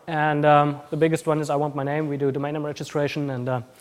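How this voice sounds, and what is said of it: Mixed German Austrian New Zealand accent. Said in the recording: “I have a bit of a weird accent, like German, Austrian, New Zealand mixed up”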